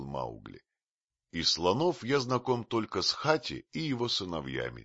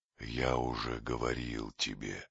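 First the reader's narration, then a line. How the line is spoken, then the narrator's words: Gentle. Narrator (Russian): мягко сказал Кобрика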